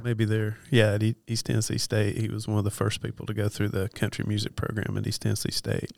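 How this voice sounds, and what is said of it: Soothing Western North Carolina accent. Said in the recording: “I think you kind of have an accent ... I'm from Western North Carolina ... The hills of North Carolina ... a little bit of a hillbilly ... I love the accent, man. It's very soothing.”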